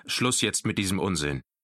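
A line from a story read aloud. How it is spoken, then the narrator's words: Father interrupts gruffly. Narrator (German): unterbrach ihn sein Vater barsch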